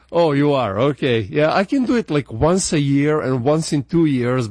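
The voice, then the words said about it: Slavic accent. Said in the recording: “I've been working real hard to get my American accent as much as I can, but it's still there. The Slavic in me is still crying out.”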